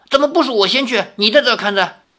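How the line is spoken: Angry. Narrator (Chinese): 另一个人怒道

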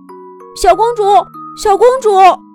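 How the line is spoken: Calling from behind. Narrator (Chinese): 小老鼠在他身后喊着

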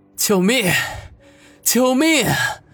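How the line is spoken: Desperate cry for help. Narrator (Chinese): 王宇用尽了全身的力气，发出求救的呼喊

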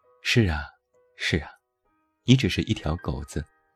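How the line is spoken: Slow, unhurried voice. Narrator (Chinese): 那个声音依然慢悠悠

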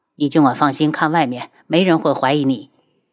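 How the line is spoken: Low voice. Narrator (Chinese): 因为是和帝凤鸣坐在一辆车里，他低声道

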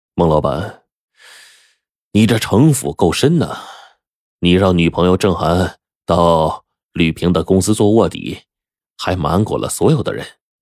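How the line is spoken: Sarcastic. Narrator (Chinese): 马军不无讽刺的说

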